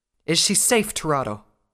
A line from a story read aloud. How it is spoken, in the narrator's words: asked again, more urgently this time